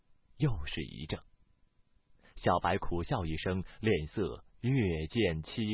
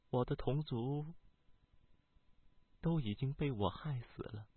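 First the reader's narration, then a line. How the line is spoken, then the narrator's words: Soft, somber. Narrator (Chinese): 小白的脸色慢慢的暗淡了下来 轻声道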